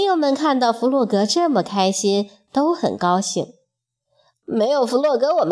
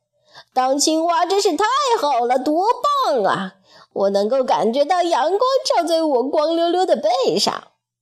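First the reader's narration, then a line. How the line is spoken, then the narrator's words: Shouting. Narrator (Chinese): 他喊了起来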